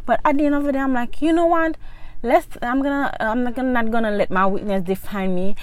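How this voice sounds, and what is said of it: Speaks with a foreign accent. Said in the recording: “when you have an accent ... having an accent ... i'm gonna have an accent”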